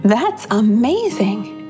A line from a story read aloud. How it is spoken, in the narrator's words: exclaimed Babette